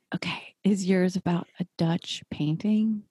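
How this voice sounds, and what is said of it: Whispering. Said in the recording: “I'll whisper it. ... you can speak in a normal voice now.”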